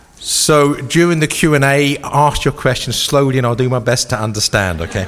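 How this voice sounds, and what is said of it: Speaks with a noticeable foreign accent. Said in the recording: “Mike alluded to my accent ... I am the only person in this room without an accent.”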